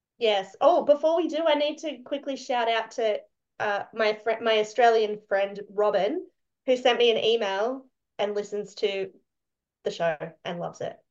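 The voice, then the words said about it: Australian accent. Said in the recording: “a fellow Australian accent”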